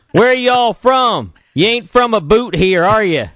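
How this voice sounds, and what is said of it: Put-on Kentucky accent. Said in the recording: “they're from Kentucky. I thought they were from Canada. I didn't. I didn't place the accent at first.”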